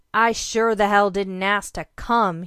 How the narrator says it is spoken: he snarled

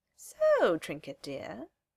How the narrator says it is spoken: she says, her voice high and musical

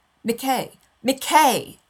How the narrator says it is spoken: She hardly realizes she's yelling

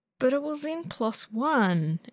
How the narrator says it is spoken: Ed whines

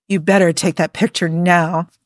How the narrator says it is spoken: Jim growled

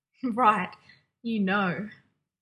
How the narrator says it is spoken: John said, half laughing, half gasping

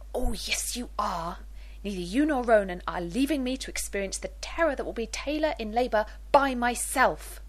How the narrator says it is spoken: Rodney hissing

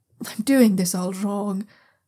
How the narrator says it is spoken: Zha Yunlan mutters

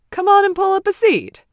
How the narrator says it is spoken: Brightly, Ted says

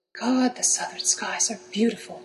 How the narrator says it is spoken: Draco breathed

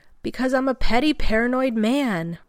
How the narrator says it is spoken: Rodney shouts with exasperation

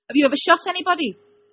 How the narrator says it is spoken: Edgar blurted

